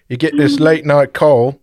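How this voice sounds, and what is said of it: Attempted Australian accent sounding British. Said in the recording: “Should I do an Australian accent? ... That's British.”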